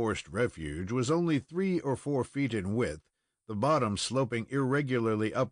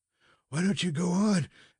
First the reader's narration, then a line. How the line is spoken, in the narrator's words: asked the panting lad